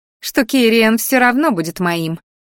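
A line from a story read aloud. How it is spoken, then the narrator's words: Angry snuffling. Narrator (Russian): злобно сопела красноволосая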